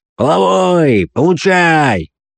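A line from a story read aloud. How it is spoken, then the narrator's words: Shout in mock-drunken tone. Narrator (Russian): Коптон крикнул, подделываясь под пьяный тон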